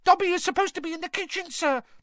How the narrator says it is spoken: Dobby squealed

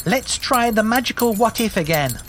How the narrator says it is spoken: screeched Jew

